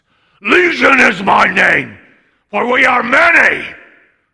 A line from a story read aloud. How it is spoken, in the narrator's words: he shouted at the top of his voice